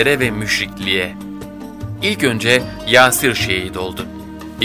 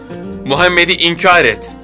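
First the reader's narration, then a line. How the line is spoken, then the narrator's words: Repeated shouting. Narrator (Turkish): diye bağırdıkça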